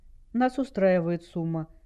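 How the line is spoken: Calm reply. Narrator (Russian): спокойно ответил Дэйв

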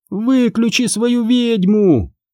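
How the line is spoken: Yelling. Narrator (Russian): заорала Сабрина

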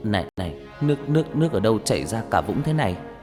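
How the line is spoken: Dazed, trembling voice. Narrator (Vietnamese): Gương mặt của Nam lúc này như người mất hồn, mãi một lúc sau anh mới đáp bằng cái giọng run run

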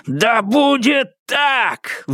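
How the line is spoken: Roaring. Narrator (Russian): взревел Фаразар

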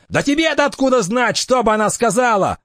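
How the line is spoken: Yelling. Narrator (Russian): завопил

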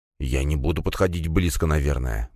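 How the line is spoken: Trembling mutter while walking. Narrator (Russian): бормотал на ходу слуга, и я заметил, как он задрожал

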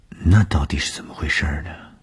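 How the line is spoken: Shy murmur. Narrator (Chinese): 东风的脸上飞过红晕……喃喃地说

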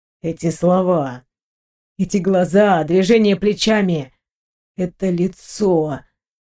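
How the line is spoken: Muffled young man's voice. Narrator (Russian): глухо проговорил молодой человек

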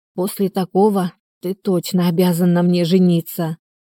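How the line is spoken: Hoarse rasp. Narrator (Russian): прохрипела

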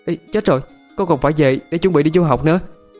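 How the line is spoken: Sulky loud shout. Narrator (Vietnamese): Giận dỗi, hét ầm lên

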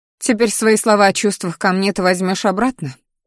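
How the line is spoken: Bitter scoff. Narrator (Russian): хмыкнула Алиса, с горечью

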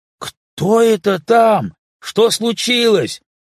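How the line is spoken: Distant shout. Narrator (Russian): крикнул граф из гостиной

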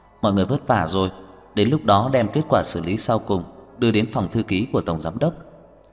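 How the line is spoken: Smiling. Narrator (Vietnamese): Đông Anh mỉm cười nói

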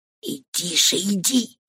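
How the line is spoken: Furious whisper. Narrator (Russian): в бешенстве прошептал ей на ухо Борднаф

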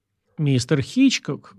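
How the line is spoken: Exclamation. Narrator (Russian): воскликнул я

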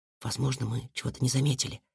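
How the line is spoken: Whispered reply. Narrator (Russian): также шепотом ответил ему Сашка

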